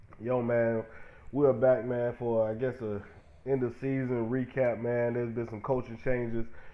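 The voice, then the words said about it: Sick, under-the-weather voice. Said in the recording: “You can hear it in my voice, man. I'm a little under the weather”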